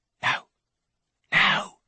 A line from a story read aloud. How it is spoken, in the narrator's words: he whispers